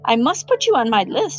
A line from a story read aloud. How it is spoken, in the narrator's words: he said excitedly